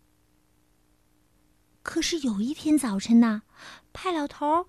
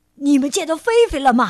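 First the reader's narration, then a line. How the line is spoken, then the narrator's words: Old man shouting. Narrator (Chinese): 老头冲着母鸡们高喊着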